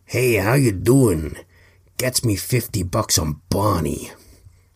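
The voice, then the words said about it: Bad put-on American accent. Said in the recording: “bad American accent voice”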